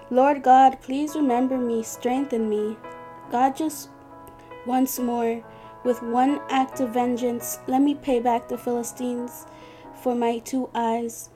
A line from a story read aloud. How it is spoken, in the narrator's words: He called out to the Lord